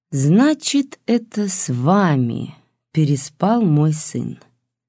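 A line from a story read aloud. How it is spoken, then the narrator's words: Knowing drawl. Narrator (Russian): понимающе протянула Григорьева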